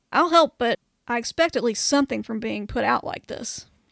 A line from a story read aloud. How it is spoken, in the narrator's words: he grumbles